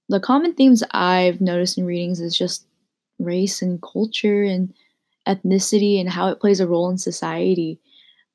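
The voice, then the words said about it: Tired, flat, lifeless voice. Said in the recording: “my voice sounds a little bit dead ... just pretty stressed from finals week”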